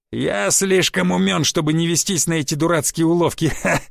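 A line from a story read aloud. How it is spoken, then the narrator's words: Hoarse laughter. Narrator (Russian): Хрипло засмеялся крест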